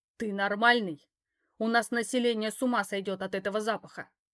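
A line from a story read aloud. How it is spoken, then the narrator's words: Growl. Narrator (Russian): рыкнул я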